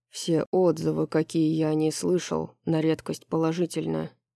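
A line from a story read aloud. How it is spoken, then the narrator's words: Grumbled. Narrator (Russian): проворчал Хант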